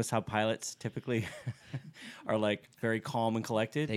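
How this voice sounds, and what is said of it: Usual voice. Nothing is said of it.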